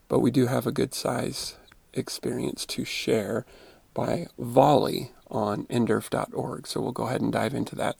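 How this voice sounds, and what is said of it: Sore-throated voice with a cold. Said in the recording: “I've got a little bit of a cold in my voice and throat are a little sore... I am struggling with my voice a little bit”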